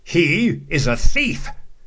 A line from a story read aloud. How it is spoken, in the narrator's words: the sheriff shouted